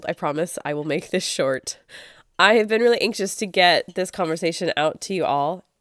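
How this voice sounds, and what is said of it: Congested voice from a cold. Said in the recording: “I'm so sorry that I have a cold.”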